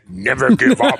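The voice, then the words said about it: Imitates another person's voice. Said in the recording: “I wish I could do a Churchill accent. ... That was pretty good.”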